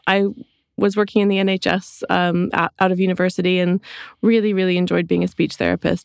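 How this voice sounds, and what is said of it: Canadian English accent. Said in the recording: “people are listening to your voice ... your accent here ... I grew up in Canada, which is where my accent is from”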